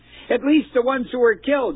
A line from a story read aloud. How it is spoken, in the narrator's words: she screamed